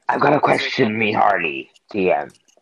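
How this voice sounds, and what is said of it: Pirate voice. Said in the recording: “doing a pirate voice.”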